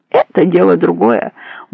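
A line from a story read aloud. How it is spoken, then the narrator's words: Grumbling. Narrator (Russian): буркнул Верзила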